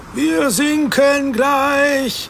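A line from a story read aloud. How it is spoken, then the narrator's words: Shouted. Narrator (German): schrie Matthäus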